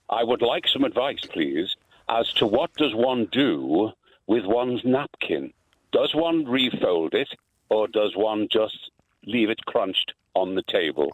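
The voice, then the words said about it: Very posh Liverpool accent. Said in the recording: “In a very posh Liverpool accent.”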